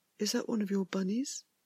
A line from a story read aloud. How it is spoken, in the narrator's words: he had asked